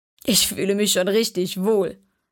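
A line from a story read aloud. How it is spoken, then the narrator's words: Laughing. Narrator (German): lachte Sam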